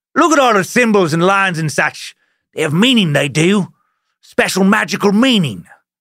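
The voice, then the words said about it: Attempted old-timey Italian, sounds British. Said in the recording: “that wasn't like an Italian old-timey accent. I don't know what that was. That might have been kind of old-timey British. I wanted to try and do an old-timey Italian accent”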